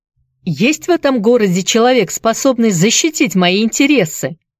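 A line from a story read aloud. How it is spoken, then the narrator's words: Belligerent shout. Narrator (Russian): воинственно крикнул Энди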